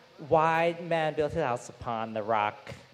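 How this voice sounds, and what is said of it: Singing with American-sounding accent. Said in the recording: “sounds American when I sing it”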